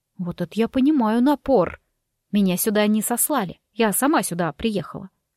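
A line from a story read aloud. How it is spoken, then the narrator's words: Calm. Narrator (Russian): спокойно проговорила я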